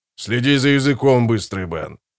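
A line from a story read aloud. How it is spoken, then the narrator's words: Growling. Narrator (Russian): прорычал скворец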